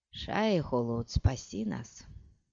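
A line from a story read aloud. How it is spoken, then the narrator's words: Muttered. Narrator (Russian): пробормотал Пол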